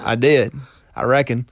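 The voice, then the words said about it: Put-on southern accent. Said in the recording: “you spoke with a southern accent”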